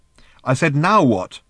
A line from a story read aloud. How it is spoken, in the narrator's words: repeated Ford irritably